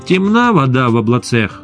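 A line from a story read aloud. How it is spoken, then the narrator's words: Angry pronouncement. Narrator (Russian): Аналитики зло изрекали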